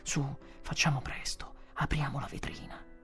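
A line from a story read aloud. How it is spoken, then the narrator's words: Feverish whisper. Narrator (Italian): Io avevo la febbre e dissi sottovoce a mia moglie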